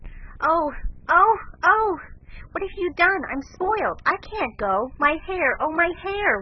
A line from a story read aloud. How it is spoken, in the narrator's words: wailed Meg, looking with despair